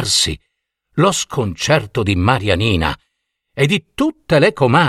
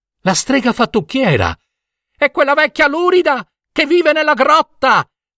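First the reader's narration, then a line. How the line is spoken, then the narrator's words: Women shouting together. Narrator (Italian): gridarono le comari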